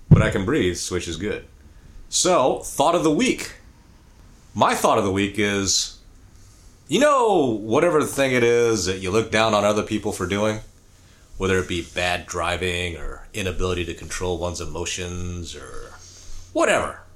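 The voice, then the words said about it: Slightly sick-sounding voice. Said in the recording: “I have been sick. I'm getting over it. ... my voice is still kind of...”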